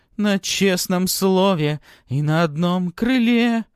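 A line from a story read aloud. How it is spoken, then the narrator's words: Loud shouted singing. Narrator (Russian): Диана громко выкрикивает очередную строчку из песни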